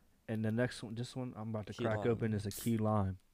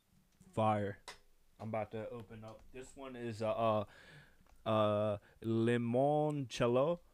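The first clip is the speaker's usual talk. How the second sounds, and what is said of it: Put-on foreign accent. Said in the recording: “You did the accent. ... Yeah, I tried.”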